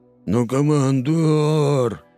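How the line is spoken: Nasal drawn-out whine. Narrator (Russian): гнусаво и протяжно заныл снайпер

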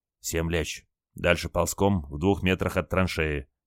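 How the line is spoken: Quiet order. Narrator (Russian): тихо приказал моряк

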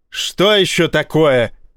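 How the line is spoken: Commanding roar over noise. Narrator (Russian): рявкнул адмирал, перекрывая командным ревом вопли в коридоре

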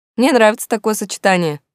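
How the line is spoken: Snorting. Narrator (Russian): фыркнул Римус

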